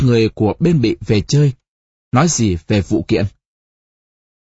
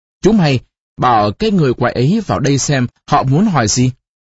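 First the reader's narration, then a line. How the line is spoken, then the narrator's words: Frowning stern shout. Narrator (Vietnamese): ông cau mặt quát lính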